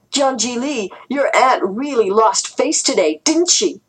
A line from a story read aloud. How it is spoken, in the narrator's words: Duhai shouted